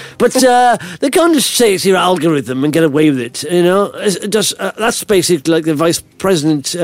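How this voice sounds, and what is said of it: Usual voice. Nothing is said of it.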